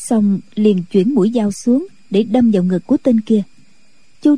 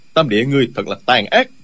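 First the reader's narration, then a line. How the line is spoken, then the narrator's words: Shouting. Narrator (Vietnamese): Diêu Thanh Tuyền quát lên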